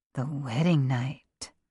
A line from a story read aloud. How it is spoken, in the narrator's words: David whispered